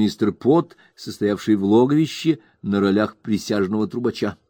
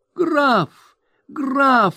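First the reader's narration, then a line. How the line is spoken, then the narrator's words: Sudden shriek. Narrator (Russian): вдруг взвизгнула она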